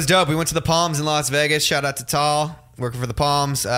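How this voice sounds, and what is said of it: Usual voice. Nothing is said of it.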